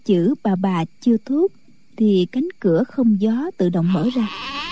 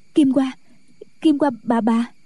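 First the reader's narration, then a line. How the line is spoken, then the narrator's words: Panicked stammering. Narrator (Vietnamese): Kỷ Hữu Phù hớt hải, mặt tái nhợt, nói lắp bắp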